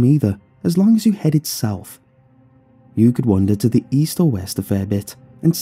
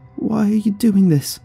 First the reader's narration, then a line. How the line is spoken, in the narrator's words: she called out meekly